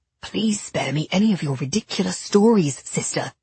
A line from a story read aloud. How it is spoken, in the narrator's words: Nathaniel whispered harshly